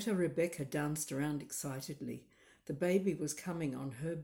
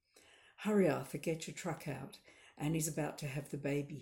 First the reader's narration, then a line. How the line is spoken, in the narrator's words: gasped in his rich Irish brogue